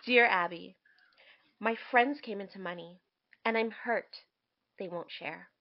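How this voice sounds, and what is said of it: Dramatic reading voice. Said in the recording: “I'm going to read it dramatically for you guys.”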